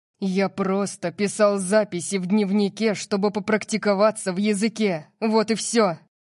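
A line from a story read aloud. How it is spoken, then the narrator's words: Growled. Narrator (Russian): прорычал Диего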